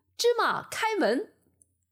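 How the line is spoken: Shouting. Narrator (Chinese): 喊了句

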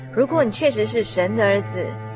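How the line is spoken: Mocking, jeering passersby. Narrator (Chinese): 过往的行人啊还不时辱骂讥笑他，而且他们还对他说

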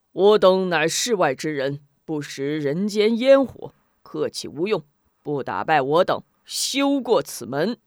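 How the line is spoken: Hearty laughter. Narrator (Chinese): 四大法王哈哈大笑

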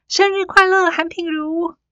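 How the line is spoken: Loud chorus shout. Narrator (Chinese): 全班同学随之齐声大喊

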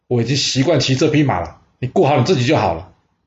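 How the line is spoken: Angry. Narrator (Chinese): 晋惠公怒视着庆正说

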